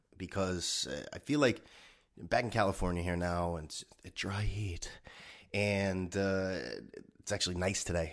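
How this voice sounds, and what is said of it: Stuffed-up nasal voice. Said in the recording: “Does my voice sound a little different? ... my voice may sound a little different. It just feels like I got a clothespin over my nose or something. I'm a little stuffed up”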